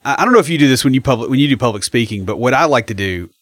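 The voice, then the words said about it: Slow Southern drawl. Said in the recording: “guys that have got voices like ours, where we kind of have the drawl ... our voices, you know, at that slow speed”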